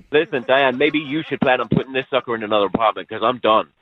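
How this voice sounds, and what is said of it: Speaks with a noticeable accent. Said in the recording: “I thought your accent was charming early on, but now, kind of annoying.”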